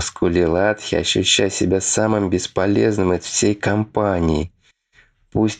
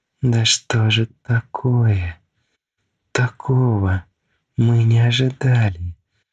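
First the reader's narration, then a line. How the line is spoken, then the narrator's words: Exhausted moaning. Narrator (Russian): Уже стонала Фелиса, уже выбиваясь из сил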